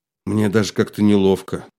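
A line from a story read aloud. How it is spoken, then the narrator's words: Sighing. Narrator (Russian): вздохнул Мстислав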